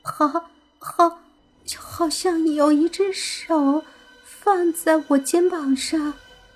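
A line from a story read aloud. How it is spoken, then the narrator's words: Trembling voice. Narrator (Chinese): 伊梅的声音颤抖着说道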